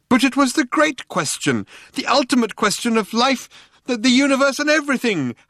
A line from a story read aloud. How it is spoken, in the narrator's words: howled Loonqual